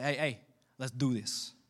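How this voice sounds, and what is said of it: Put-on accent. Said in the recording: “With that kind of accent, too. ... Yeah, you want me to stop that accent?”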